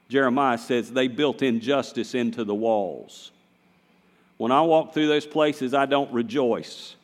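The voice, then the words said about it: Southern US accent. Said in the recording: “Now, I'm a Southerner. Did anybody notice that? Anybody notice that I'm Southern? ... you need to clean up your accent a little bit ... this is how we talk in Wahlberg ... We talk like this.”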